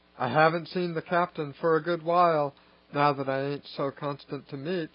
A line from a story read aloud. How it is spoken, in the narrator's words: she added wistfully